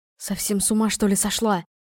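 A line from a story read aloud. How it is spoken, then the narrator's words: Hissed from behind. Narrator (Russian): прошипел один из торговцев за моей спиной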